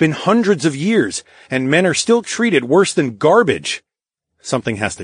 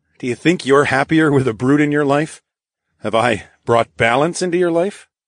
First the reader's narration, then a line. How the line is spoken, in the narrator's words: Josephine threw her head back and laughed